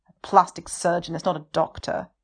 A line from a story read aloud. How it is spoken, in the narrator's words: Wei Ying sneers